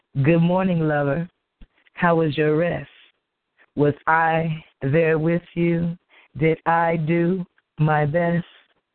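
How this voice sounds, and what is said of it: Hoarse, worn-out voice. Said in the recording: “my voice sounds so hoarse ... it's just really gone ... sound a little bit like Johnny Gill a little bit”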